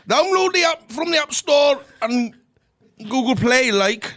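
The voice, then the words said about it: Attempted Geordie accent. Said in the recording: “Give it the Glasgow Private Hire details in a Geordie accent.”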